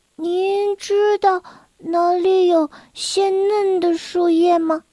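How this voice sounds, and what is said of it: Quiet, soft-spoken question. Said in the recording (Chinese): “小声”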